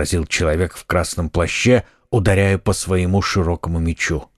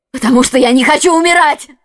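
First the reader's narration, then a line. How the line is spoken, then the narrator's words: Exclaiming. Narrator (Russian): воскликнула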